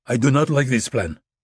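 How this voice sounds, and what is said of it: Thick foreign accent, still understandable. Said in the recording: “His accent was thick but understandable.”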